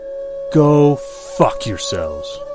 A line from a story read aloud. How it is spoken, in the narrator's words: exclaiming